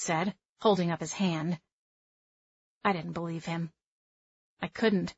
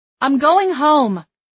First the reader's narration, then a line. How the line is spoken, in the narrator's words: I yelled